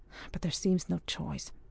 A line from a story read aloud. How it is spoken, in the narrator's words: murmured Ardroy